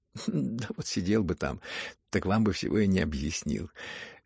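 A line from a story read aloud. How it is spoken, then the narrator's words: Cheerful laughing prince. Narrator (Russian): весело засмеялся князь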